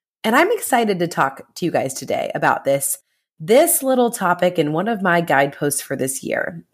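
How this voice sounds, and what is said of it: Stuffy, congested voice. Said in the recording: “I sound a little stuffy because guess what? I am.”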